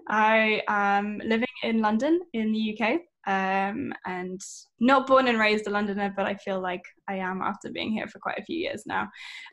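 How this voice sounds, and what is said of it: British English accent. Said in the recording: “you can probably tell from my accent that I am not American.”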